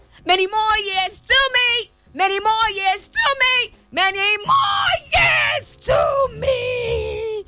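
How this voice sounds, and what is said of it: Shouting loudly. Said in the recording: “I hope I don't lose my voice today from shouting ... I'm gonna scream down this studio”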